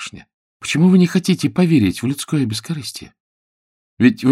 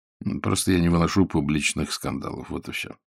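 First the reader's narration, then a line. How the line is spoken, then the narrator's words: Dry, curt. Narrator (Russian): сухо проговорил действительный статский советник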